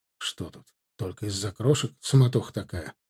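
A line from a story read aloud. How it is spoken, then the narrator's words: Quiet question. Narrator (Russian): спросил его тихонько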